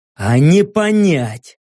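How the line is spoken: Angry snarl. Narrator (Russian): Зло ощерился я

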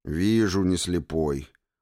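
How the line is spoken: Grumbled. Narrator (Russian): буркнул товарищ нарком

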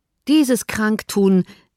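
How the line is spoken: Calling out. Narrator (German): rief

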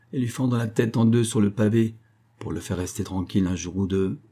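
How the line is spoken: Mocking murmur. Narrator (French): murmura-t-il d'un ton dérisoire

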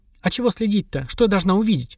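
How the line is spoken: Scoffing grunt. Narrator (Russian): хмыкнул Таня

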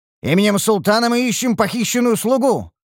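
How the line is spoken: Barked command. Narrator (Russian): рявкнул капитан стражи

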